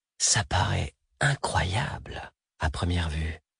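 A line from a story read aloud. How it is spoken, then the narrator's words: Murmured. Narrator (French): murmura Syrienne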